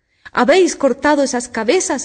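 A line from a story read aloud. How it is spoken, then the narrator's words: Queen shouting. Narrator (Spanish): gritó la reina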